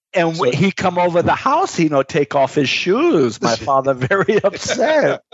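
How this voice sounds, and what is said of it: Deliberately bad put-on Korean accent. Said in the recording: “Was that your Korean accent there ... That was my horrific Korean accent.”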